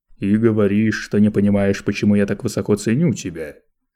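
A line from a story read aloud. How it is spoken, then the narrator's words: Accusing tone. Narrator (Russian): обвиняющим тоном произнес Лето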